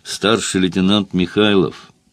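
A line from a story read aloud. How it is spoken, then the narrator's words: Mischievous, quiet, distinct. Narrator (Russian): я из озорства сказал тихо и отчетливо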